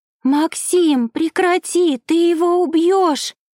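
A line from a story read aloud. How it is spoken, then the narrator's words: Screaming. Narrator (Russian): закричала девушка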